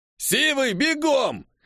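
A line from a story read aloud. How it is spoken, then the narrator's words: Barked. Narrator (Russian): Рявкнул один из его подельников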